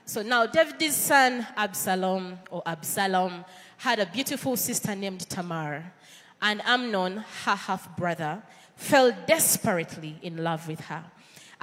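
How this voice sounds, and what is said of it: Ugandan English accent. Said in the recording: “my Ugandan accent may pronounce names differently”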